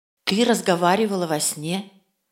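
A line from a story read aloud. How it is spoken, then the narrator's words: Plain. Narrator (Russian): сказала мама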